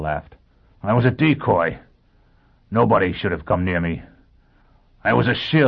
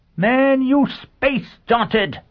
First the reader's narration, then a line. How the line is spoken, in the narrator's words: Sheffield said savagely